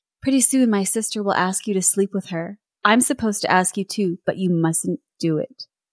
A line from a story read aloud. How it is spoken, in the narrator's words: She was whispering in his ear